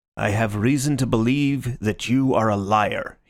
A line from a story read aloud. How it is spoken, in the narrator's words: he growled